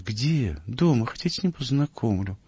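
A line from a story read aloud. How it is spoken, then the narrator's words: Sighing after a pause. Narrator (Russian): Помолчав, он вздохнул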